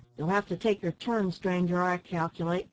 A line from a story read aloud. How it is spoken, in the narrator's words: answered the storekeeper somewhat sharply